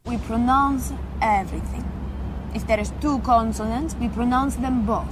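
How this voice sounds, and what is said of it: Italian accent in English. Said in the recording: “that's what you call a sexy accent. That really is sexy ... Italian is rightfully the number one, and is rightfully the most sexiest accent in the world.”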